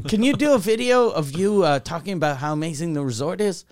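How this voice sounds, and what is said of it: Put-on unidentified foreign accent. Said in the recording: “I don't know what accent I'm doing. ... not Haitian.”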